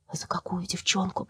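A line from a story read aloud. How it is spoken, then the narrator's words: Whispered. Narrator (Russian): прошептал Митя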